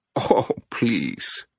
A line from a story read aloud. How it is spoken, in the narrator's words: Benya said, laughing